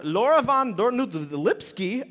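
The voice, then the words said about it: Put-on German accent. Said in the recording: “I hope she's German because that's the accent that came out.”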